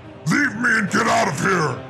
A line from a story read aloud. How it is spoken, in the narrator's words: Darunia roared